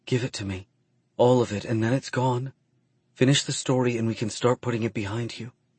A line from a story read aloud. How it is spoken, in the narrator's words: she whispers, and a few of the tears overflow and fall from her eyes